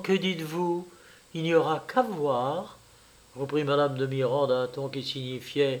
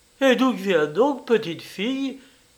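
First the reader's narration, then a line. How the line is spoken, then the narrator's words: Angry cry, irritated tenderness. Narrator (French): s'écria-t-elle avec colère, car il s'en fallut peu alors qu'elle me dit des injures, et le tout par tendresse irritée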